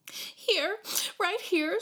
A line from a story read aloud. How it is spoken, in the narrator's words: choked